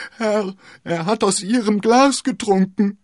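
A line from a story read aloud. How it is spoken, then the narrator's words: Continuous wailing and screaming. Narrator (German): jammerte und schrie in einem fort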